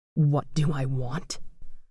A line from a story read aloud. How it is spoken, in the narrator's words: whispered